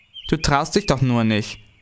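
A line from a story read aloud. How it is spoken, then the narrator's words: Angry retort. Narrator (German): erwiderte Tina zornig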